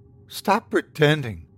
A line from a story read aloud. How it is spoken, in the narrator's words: she said, her tone controlled but shaky